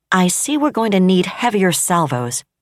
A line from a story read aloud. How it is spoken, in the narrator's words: Admiral Jane Isatalo said coldly